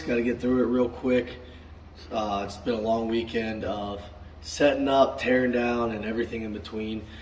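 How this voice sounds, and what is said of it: Raspy voice. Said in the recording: “Got a raspy voice.”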